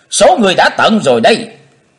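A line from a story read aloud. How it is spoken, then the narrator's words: Shout. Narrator (Vietnamese): Trong tiếng hét, Chí Tôn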